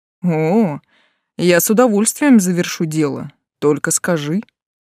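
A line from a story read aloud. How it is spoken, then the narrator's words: Mocking reply. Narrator (Russian): насмешливо отозвался Тан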